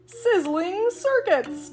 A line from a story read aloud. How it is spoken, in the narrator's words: Bot exclaimed